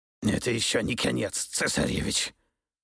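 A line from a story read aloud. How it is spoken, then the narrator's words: Hoarse, choking on blood. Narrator (Russian): прохрипел великий князь, выплевывая слова вперемешку с кровью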